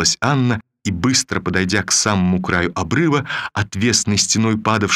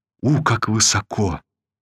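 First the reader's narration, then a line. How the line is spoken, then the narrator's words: Weak, trembling voice. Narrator (Russian): произнесла она ослабевшим и вздрагивающим голосом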